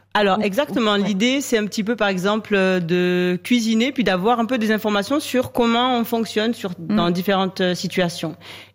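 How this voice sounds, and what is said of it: Speaks with a slight accent. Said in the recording (French): “Mon Dieu, comme j'aime comme elle parle. Avec ... avec ce ... petit ... Accent”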